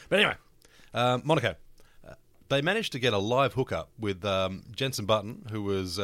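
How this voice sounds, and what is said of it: Usual voice. Nothing is said of it.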